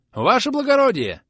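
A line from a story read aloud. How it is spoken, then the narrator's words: Shout. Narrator (Russian): Не спешиваясь, крикнул он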